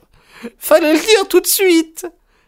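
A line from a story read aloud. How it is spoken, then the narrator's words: Joyful exclamation. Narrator (French): s'écria-t-elle avec un joyeux sourire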